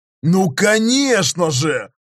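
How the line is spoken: Joyful exclamation. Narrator (Russian): радостно воскликнул Готар, чей настрой вновь пошел резко вверх

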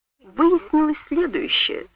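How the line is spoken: Calm. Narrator (Russian): сказал я спокойно

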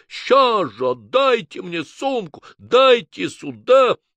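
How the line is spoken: Shouting. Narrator (Russian): закричал

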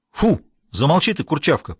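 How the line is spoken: Sharp shout. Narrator (Russian): прикрикнул кто-то

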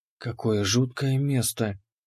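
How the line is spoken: Barely audible whisper. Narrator (Russian): прошептала Ани, ее голос был едва слышен

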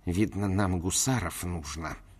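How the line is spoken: Through gritted teeth. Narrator (Russian): Порфирий Владимирович побледнел еще больше и, произнеся сквозь зубы

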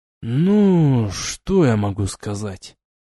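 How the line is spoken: Drawled with obvious pleasure. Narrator (Russian): С явным удовольствием протянул Вис

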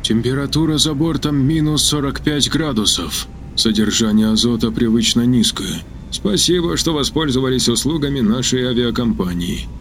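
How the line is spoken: Muttered. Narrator (Russian): пробормотал Новак

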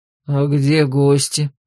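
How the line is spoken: Deep bass voice. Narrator (Russian): пробасил Таилос

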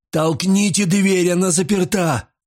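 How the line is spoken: Shouted. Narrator (Russian): прокричал

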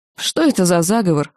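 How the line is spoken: Wry snort. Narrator (Russian): хмыкнула Нина

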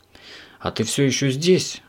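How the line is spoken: Sighing. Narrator (Russian): вздохнул он

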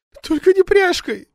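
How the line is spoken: Pleading after sobbing. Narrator (Russian): справившись с рыданиями, попросила жена

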